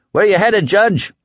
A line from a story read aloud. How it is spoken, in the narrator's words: Wyzak shouted